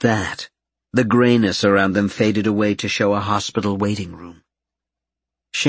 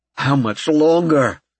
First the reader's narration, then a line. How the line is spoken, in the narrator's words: David cried out